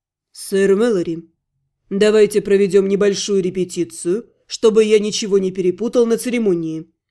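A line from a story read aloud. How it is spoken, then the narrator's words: Dry tone. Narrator (Russian): сухо сказал Ратмир Второй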